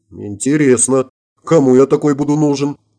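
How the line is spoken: Mutter. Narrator (Russian): буркнул я

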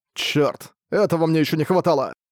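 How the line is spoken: Irritated shout. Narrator (Russian): Раздражённо выкрикнул Арк

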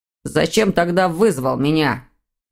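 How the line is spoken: Growling reply. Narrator (Russian): прорычал сын в ответ

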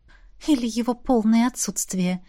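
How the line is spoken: Quiet joking. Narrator (Russian): тихонько пошутила Ти

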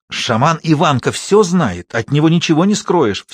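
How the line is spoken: Furious whisper. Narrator (Russian): все тем же яростным шепотом сказала Фёнка

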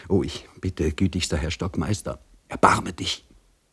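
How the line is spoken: Whispered. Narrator (German): des Gefangenen ... er flüsterte

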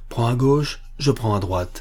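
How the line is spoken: Plain. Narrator (French): dit-il

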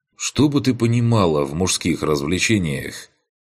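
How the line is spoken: Snorting scoff. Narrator (Russian): Хмыкнул я

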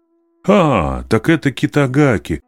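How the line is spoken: Teacher's exclamation. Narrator (Russian): воскликнул наставник

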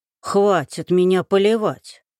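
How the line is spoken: Moaned. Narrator (Russian): простонала Марья Алексеевна

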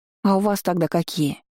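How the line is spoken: Angry sigh. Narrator (Russian): вздохнула сердито

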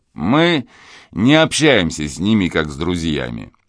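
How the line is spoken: Said laughing. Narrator (Russian): смеясь сказал

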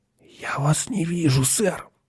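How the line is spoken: Whisper. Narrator (Russian): прошептал он

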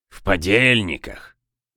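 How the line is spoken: Boatswain grumbling. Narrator (Russian): проворчал боцман

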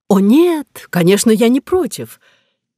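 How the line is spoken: Joyful, beaming. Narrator (Russian): Просияв вновь, шеф радостно резюмировал

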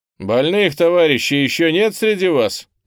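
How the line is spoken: Loud question. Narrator (Russian): громко спрашиваю я

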